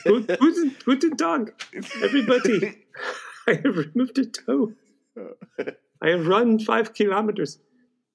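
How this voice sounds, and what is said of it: Put-on German accent. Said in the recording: “can you do it in a German accent? ... This is terrible.”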